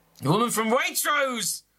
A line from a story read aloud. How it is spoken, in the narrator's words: shout, my forehead going all red